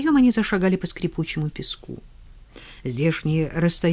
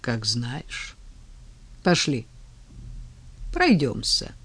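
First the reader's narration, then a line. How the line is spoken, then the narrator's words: Gentle yet commanding. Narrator (Russian): пригласил он новенькую ласково, повелительным тоном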